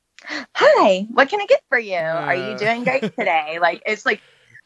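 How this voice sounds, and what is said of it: Upbeat cheerleader-like customer service voice. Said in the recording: “my same like customer service voice ... channel my inner like cheerleader”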